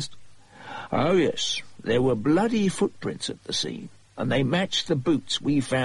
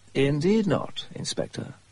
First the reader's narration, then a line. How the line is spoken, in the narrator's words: Holmes said smoothly